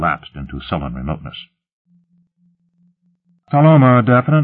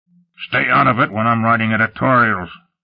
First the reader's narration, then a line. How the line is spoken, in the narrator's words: Lut barked